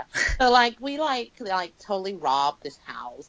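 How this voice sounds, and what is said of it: Bad Californian accent impression. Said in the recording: “me doing a really bad impression of someone from California”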